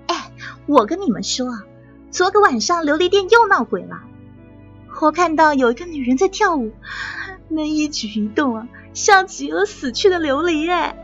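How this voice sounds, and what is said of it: Hushed gossiping maid voice. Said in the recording (Chinese): “几个婢女的小声八卦”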